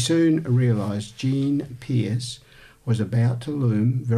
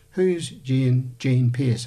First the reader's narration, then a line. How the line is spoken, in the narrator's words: asked Mum